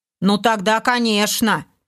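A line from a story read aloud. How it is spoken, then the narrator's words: Snide agreement from orc. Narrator (Russian): ехидно улыбаясь, согласился второй орк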